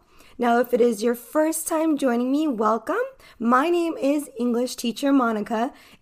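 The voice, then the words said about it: Clear Californian American English accent. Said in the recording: “I am an American English teacher from California ... an American accent from the Western Hemisphere ... my accent is going to be different than someone who is from the South ... my accent is that it's very clear”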